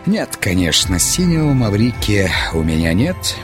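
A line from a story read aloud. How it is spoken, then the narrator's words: Plain. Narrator (Russian): ответил он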